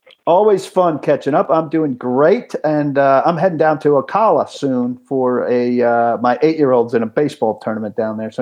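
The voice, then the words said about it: Northeastern American accent. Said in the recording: “I hear the northeastern accent in you.”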